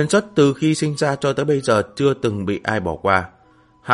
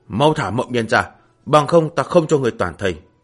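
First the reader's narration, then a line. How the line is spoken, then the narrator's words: Shouting. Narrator (Vietnamese): Huyền Xuất quát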